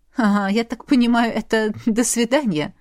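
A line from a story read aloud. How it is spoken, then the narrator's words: Short laugh. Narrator (Russian): хохотнул Эйвид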